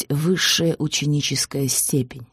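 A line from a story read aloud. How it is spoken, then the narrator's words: Plain. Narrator (Russian): сказал он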